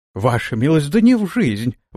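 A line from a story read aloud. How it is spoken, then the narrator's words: Host exclaiming nervously. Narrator (Russian): воскликнул хозяин, покрывшись каплями пота на лице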